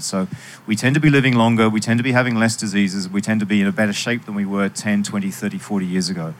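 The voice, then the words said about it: Slightly British accent. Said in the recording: “as you can tell by my accent, besides uh, living in a few countries, I have a bit of Britishness in me.”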